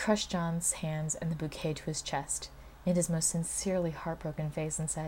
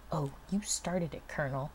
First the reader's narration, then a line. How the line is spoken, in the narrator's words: Rodney whispered back